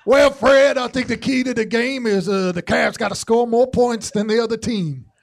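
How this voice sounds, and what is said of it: Austin Carr impression, announcer voice. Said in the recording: “can you do an Austin Carr impression? Let's just do three Austin Carrs.”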